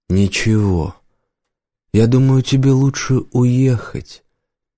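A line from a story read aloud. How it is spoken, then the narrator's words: Nightingale speaking gently. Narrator (Russian): мягко сказал соловей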